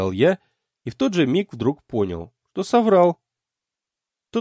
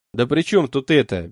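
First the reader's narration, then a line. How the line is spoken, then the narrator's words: Helpless mumble. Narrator (Russian): беспомощно пробормотал я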